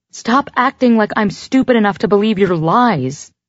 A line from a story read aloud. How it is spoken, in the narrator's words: yell